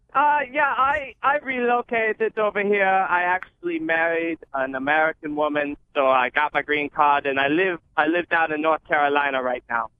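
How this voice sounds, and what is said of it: Thick German accent. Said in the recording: “German ancestry and thick accent”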